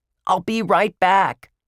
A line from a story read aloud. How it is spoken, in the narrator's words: Ruth Rose yelled